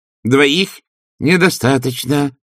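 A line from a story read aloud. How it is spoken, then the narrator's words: Snapping, telepathic voice. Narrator (Russian): огрызнулся ревизор у них в мыслях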